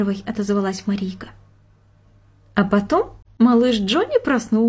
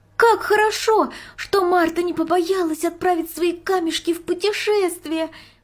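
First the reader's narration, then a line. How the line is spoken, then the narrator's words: Joyful exclamation. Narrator (Russian): воскликнула Марийка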